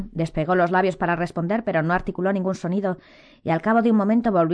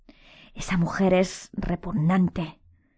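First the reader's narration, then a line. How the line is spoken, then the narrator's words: Whispered assertion. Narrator (Spanish): afirmó Hermione con un susurro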